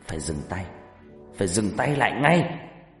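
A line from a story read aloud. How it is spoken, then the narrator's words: Growling. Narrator (Vietnamese): Bà Regina gầm gừ nói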